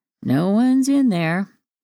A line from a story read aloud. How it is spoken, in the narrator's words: drawled